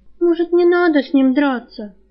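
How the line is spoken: Pleading young woman. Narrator (Russian): взмолилась девушка

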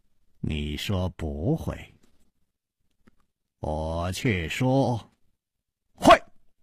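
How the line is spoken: Slow smile. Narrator (Chinese): 楚留香缓缓地笑了

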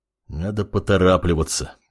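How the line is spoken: Muttered. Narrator (Russian): пробормотал он

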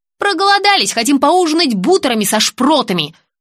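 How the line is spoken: Snapped. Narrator (Russian): огрызнулась Оля

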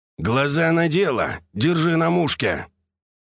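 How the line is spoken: Grumbling. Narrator (Russian): Чулочный пробурчал

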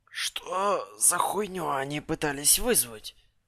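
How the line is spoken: Strained hoarse rasp. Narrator (Russian): прохрипел я, кое-как вставая

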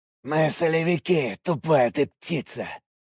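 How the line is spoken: Hoarse. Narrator (Russian): прохрипел он

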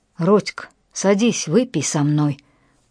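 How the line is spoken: Low rumbling growl. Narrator (Russian): прорычал здоровяк низким, ракочущим голосом

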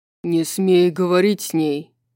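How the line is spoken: Louder growl. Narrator (Russian): Уже громче зарычал Хант

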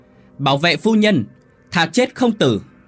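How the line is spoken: Commander's shout. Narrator (Vietnamese): Tên chủ tướng còn quát lên

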